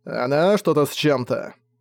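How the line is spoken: Grumbled. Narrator (Russian): пробурчал Зак

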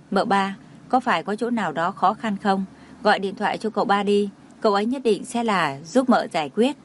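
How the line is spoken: Soft concerned question. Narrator (Vietnamese): tài xế nhìn thấy dáng vẻ sầu não của cô, không nhịn được khẽ hỏi

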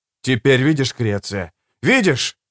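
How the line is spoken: Shouting. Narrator (Russian): закричал я

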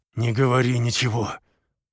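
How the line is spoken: Forced through clenched teeth. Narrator (Russian): выдавил сквозь стиснутые зубы

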